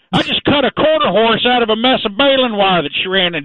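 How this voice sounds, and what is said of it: Put-on Texan accent. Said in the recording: “Don't expect to hear you sounding like this. You've really dropped your European accent”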